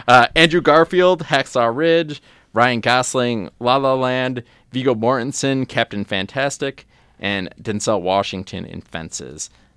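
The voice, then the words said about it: Dramatic movie announcer voice. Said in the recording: “I'm doing this in my movie voice, so like I'm at the awards.”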